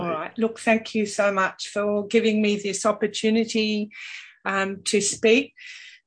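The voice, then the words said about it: Voice affected by illness. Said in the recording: “excuse my voice. I'm recovering from COVID at the moment.”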